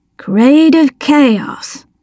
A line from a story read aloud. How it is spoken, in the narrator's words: Dale murmured